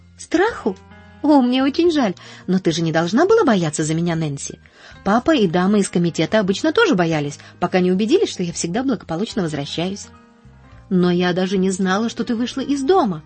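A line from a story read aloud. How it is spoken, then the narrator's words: Exclamation. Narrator (Russian): воскликнула Нэнси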